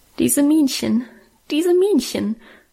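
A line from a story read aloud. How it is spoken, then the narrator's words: Suppressed sobbing. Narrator (German): schluchzte ich unterdrückt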